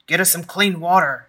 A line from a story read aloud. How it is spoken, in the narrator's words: Ezra bellowed